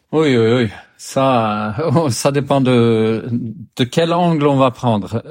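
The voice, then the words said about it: Swedish accent speaking French. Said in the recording (French): “Tu as un accent ... je suis suédois”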